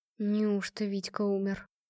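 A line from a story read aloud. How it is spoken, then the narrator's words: Quiet woman's question. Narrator (Russian): поинтересовалась негромко женщина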